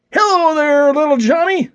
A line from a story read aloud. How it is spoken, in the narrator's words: suddenly shouted a voice